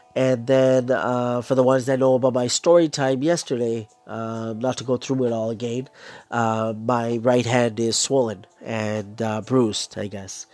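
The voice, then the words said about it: Congested, hoarse voice. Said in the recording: “I got a blocked nose, both nostrils ... Sore throat. I'm losing my voice. I lost my voice pretty bad on Sunday. It's been getting better, but it's still there a little bit. A bit of a cough.”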